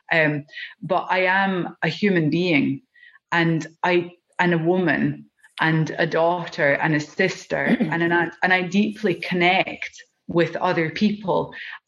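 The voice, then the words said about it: Scottish accent. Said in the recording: “As you can hear from my accent, I'm Scottish.”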